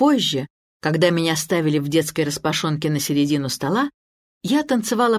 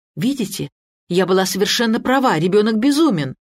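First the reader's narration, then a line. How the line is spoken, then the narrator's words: Exclaiming mother. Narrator (Russian): мать воскликнула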